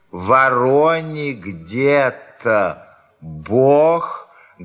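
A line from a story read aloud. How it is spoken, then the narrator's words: Loud drawn-out dictation. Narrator (Russian): говорила она громко и протяжно, вероятно, диктуя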